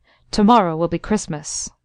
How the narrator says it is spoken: he said sternly

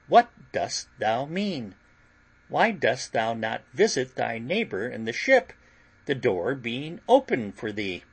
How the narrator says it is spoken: says he very calmly

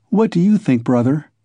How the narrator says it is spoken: said Dounia

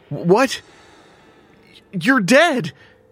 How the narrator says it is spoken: he cried

